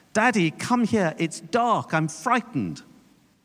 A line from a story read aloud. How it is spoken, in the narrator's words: He cried out